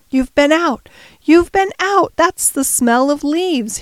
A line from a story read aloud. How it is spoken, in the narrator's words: he cried